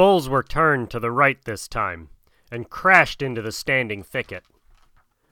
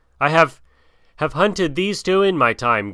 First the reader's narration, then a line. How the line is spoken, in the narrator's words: gasped Akela